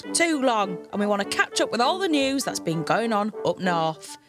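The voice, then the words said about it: Northern English Hull accent. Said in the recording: “you might be able to tell from my accent, I come from Hull.”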